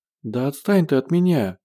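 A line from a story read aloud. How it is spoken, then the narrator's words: Pleading. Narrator (Russian): взмолилась Женя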